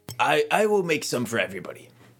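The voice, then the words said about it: Put-on character accent. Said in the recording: “there's the accent. I remembered it.”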